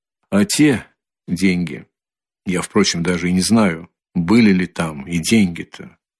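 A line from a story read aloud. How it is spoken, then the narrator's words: Quiet, pensive. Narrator (Russian): прибавил он тихо и как бы в раздумье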